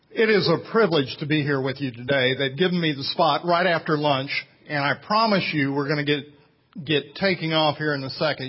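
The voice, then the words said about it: Southern American accent. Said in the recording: “as you can tell from my accent,... I am below the Mason-Dixon line”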